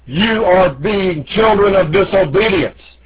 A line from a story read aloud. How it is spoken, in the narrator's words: Armstrong thundered out